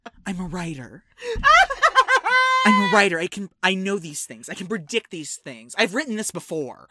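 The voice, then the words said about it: Imitates another person's voice. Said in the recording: “Your impression of me needs work.”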